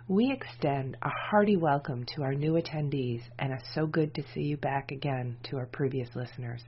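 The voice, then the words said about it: Deeper, congested voice from a cold. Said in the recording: “I'm dealing with a bit of cold today, so my voice is going to be a bit deeper than usual.”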